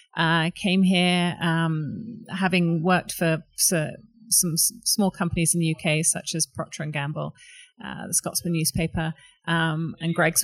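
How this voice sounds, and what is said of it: British accent. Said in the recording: “I don't have a Calgarian accent. I'm originally from the UK”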